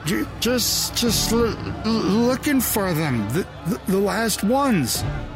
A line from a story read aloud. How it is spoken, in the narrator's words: Joe stammered